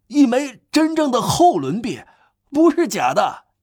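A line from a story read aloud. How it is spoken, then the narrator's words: Shouting. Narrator (Chinese): 叫着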